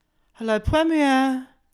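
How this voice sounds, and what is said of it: Imitates receptionists answering the phone. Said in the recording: “my impression of the people who worked at Premier. So this is them answering the phone.”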